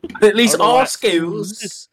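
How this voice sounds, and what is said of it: Bad country accent mixed with British. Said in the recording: “in a country accent... it got really redneck mixed with British... not good”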